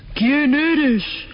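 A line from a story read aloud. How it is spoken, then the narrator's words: Thunderous imperial roar. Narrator (Spanish): rugió el emperador con voz de trueno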